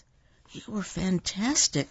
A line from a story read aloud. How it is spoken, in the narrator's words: whispered Natalie